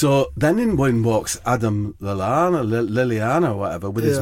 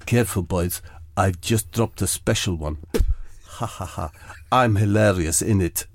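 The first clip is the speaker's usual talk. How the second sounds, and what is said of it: Impression of José Mourinho. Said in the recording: “that's my impression of Josie Mourinho ... It's very accurate ... It was like he was in the room.”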